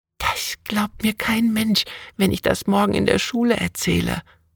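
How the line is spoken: Breathy whisper. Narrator (German): hauchte Anna

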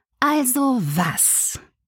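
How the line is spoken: Deliberately slow question. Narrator (German): fragte ich betont langsam

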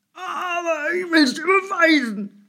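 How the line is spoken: Angry call. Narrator (German): rief ärgerlich

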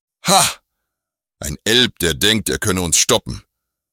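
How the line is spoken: Mocking leader's shout. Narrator (German): rief der Anführer höhnisch

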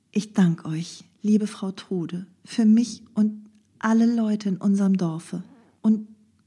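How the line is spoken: Hesitant. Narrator (German): setzte ein wenig zögernd hinzu

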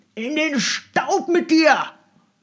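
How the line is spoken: Shout. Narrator (German): schrie Ogareff ihn an

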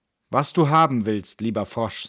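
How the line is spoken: Plain. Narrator (German): sagte sie

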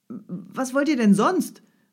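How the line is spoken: Student calling out. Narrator (German): rief der Student

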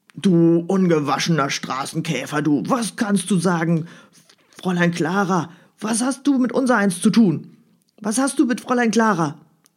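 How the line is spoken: Gruff question. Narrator (German): fragte Sebastian barsch

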